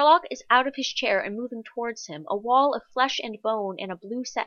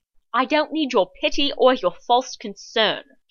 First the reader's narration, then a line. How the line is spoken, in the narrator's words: John snaps